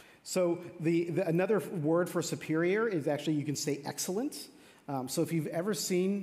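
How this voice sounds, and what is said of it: Usual voice. Nothing is said of it.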